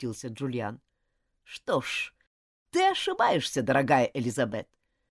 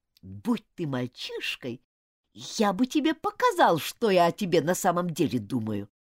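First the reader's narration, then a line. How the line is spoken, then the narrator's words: Spiteful, through gritted teeth. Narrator (Russian): процедил он со злобой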